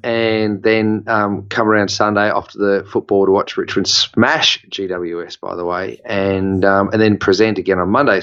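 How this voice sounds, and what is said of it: Croaky, deeper voice from a cold. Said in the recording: “having this kind of croaky, deeper voice ... my voice is a little bit deeper today just because I'm still getting over the extreme debilitation of man cold”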